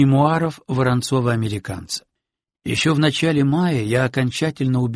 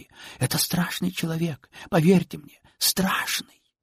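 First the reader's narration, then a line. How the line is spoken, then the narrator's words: Sinister whisper. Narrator (Russian): звучал зловещий шепот Софочки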